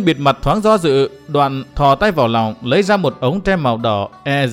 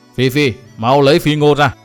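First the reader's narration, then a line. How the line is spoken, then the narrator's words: Angry old woman. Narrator (Vietnamese): Lão bà tóc bạc tức giận nói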